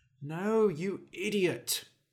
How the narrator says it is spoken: he muttered

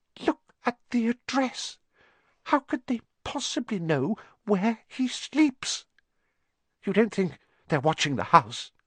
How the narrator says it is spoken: Aunt Petunia was saying in a quivering voice

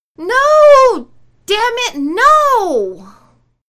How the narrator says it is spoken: Lilith screamed out

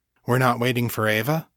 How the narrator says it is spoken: Daniel asked

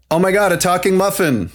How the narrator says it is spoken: the other shouted

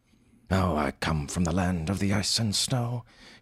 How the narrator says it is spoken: he murmured dreamily

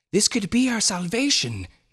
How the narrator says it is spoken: gasped Dr

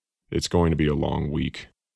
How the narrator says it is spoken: Narvon mumbled under his breath

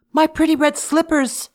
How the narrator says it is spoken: she cried

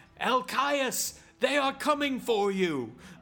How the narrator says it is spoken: yells as loud as he can

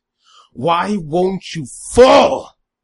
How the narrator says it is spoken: Balin yelled at the boy, his frustration coating his voice

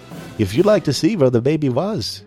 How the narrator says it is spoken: he said quickly

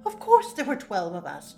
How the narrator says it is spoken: Jack laughed

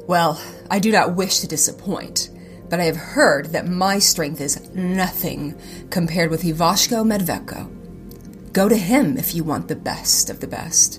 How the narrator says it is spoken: Yusinia grunted

